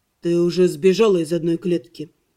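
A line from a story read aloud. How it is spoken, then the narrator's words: Muffled, hollow voice. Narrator (Russian): глухо сказал он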